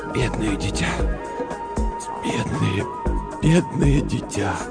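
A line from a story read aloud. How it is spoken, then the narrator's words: Doctor's whisper. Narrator (Russian): врач шептал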